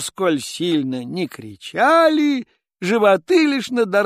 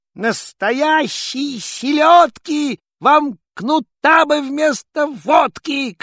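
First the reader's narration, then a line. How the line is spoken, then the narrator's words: Angry shout. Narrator (Russian): крикнул ёрш со всех сердцов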